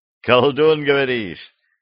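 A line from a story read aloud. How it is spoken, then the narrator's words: Cheerful laughter. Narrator (Russian): весело рассмеялся Росин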